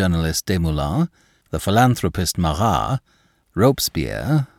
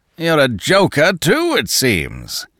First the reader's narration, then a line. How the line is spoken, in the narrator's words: roared the other